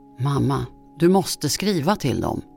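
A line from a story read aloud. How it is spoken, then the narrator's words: Unsteady voice. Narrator (Swedish): sa hon med ostadig röst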